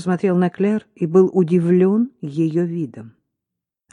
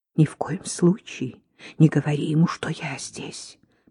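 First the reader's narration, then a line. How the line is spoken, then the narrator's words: Whisper. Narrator (Russian): прошептала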